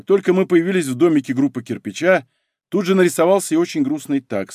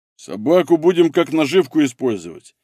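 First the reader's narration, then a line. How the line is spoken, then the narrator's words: Deep bass, burly man. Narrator (Russian): пробасил мощный бородатый мужик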